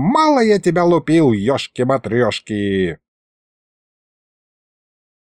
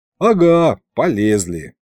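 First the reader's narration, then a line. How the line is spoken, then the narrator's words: Snorting. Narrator (Russian): фыркнул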